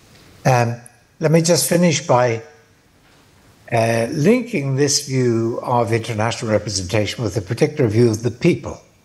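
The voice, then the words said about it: Tired, failing voice. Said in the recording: “my energy, to tell the truth, is probably out as well. I feel my voice is failing me.”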